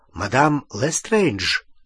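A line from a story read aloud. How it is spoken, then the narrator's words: Mumbling. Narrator (Russian): пробормотал Том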